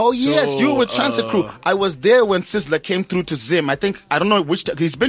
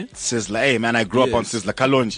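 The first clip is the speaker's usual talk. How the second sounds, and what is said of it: Put-on Jamaican accent. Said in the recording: “even the accent changed... I sounded Jamaican”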